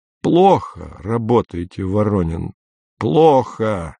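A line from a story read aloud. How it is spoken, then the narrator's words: Hoarse. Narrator (Russian): сипло сказал шеф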